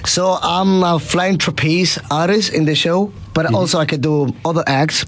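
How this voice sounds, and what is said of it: Slight Queensland Australian accent. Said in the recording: “A slight accent. Queensland? ... Spot on.”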